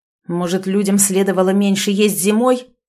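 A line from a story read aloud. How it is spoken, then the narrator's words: Angry question. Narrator (Russian): зло спросил князь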